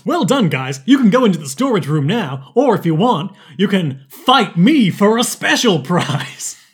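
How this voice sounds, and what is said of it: Cheerful character voice of principal. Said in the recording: “I keep doing this voice for everyone, but it's Rick's voice. ... He's meant to be a happy principal.”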